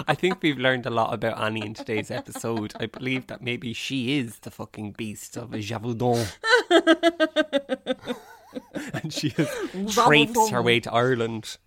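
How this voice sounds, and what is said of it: Put-on French accent. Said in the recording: “your French accent is on fleek”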